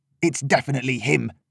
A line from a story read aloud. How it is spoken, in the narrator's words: one of them spat